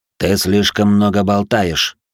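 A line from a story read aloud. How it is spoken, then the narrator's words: Through gritted teeth. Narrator (Russian): процедил Белый Дьявол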